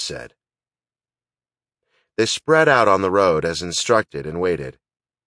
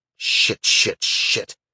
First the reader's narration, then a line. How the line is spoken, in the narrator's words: Teague muttered